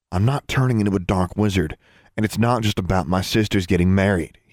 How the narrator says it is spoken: he replied, in a much calmer tone of voice

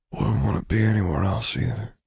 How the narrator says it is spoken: mumbled into the armor weave

